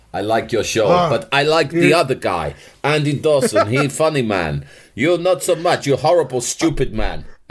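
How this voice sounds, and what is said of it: Put-on foreign accent, broken English. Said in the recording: “I can't understand your accent so good.”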